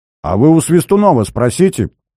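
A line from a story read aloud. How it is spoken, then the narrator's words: Exclaimed. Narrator (Russian): воскликнул Помдеш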